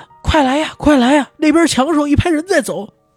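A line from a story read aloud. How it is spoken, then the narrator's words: Shouting. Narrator (Chinese): 就听人喊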